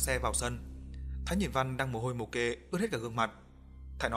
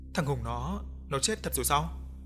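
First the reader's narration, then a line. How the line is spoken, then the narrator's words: Frightened. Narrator (Vietnamese): Văn Đá sợ hãi nói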